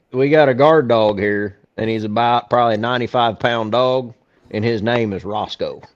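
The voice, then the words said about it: Country accent. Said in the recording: “my accent. Country.”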